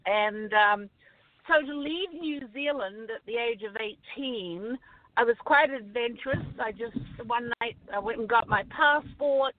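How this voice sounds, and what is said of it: New Zealand accent. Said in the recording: “I'm from New Zealand. So that's the accent”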